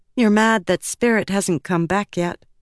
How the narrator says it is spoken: she said

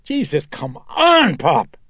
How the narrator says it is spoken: Elvira screeched as she wrenched herself free

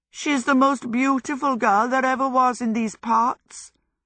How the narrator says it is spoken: Hal went on mournfully

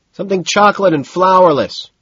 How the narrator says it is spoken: he shouts back

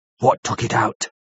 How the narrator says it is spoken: he spoke in a fierce half-whisper

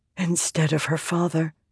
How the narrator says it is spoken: Shallan whispered

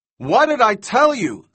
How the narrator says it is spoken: Thorne shouted

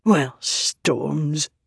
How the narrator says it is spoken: said under her breath

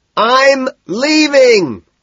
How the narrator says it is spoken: screams

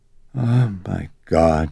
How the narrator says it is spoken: she kept sighing

